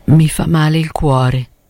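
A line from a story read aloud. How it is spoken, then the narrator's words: Moved murmur. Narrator (Italian): mormorò Brandano commosso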